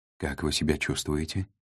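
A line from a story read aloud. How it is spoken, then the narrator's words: Quiet question. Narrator (Russian): негромко спросил Нав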